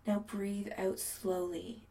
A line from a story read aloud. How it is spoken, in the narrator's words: Adam murmurs